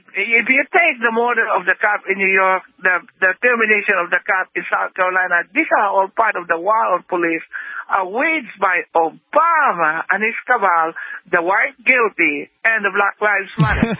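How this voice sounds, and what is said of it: Caller's noticeable accent. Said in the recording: “you add the accent in, and it makes it different”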